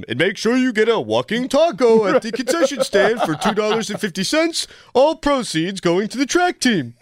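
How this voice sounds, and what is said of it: Weak impression of Callis as PA announcer. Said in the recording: “I love the idea of Callis just behind the mic on the PA system ... that's not a good impression.”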